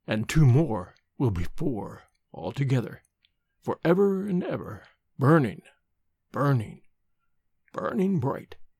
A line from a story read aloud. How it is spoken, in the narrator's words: said, his voice lowering strangely